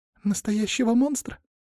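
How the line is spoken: Squeak. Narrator (Russian): пискнула Полина

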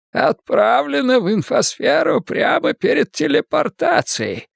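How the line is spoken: Hoarse wheeze. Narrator (Russian): просипел Силен

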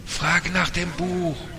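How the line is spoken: Calling out. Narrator (German): rief einer

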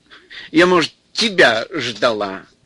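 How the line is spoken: Laughing. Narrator (Russian): Нюра засмеялась

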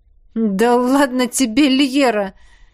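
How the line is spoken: After laughing. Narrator (Russian): первым отсмеялся Кирст

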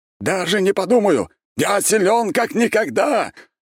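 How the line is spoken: Yelling. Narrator (Russian): орал Константин

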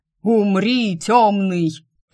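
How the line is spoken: Thundering close by. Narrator (Russian): прогремело над ухом

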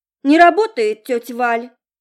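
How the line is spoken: Chuckling confirmation. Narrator (Russian): подтвердил, хмыкнув, Серж

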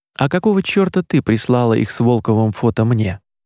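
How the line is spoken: Very calm question. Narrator (Russian): очень спокойно спросил Крестовский

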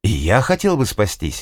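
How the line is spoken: Exclaiming. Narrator (Russian): воскликнул он

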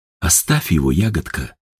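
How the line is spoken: Soft whisper. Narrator (Russian): тихо шепнул Степан

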